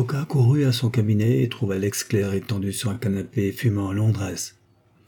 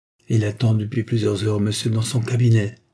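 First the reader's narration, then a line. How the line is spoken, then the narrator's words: Curt reply. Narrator (French): répondit-elle sèchement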